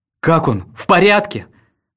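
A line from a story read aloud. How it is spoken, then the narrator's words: Yelling. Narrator (Russian): вопит Чарльз Фрэг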